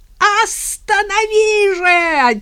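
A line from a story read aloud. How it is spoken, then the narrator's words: Desperate yell. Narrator (Russian): отчаянно заорал Мишка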